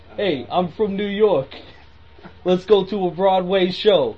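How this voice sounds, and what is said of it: Put-on Brooklyn accent. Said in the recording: “That's a Brooklyn accent to me.”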